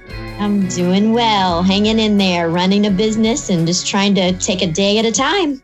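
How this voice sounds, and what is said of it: Southern American accent. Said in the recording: “I love her Southern accent.”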